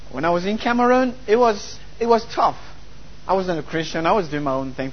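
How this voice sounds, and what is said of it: French-accented English. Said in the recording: “French is my first language, by the way, so you'll find a broken accent a little bit”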